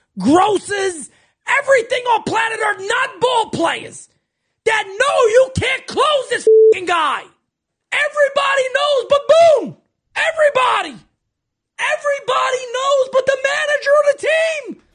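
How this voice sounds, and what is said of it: Strong New Jersey accent. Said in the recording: “He's got the New Jersey accent... This is what a lot of New York radio sounds like”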